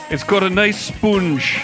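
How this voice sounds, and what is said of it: Paul Hollywood impression. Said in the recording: “My Paul Hollywood impression.”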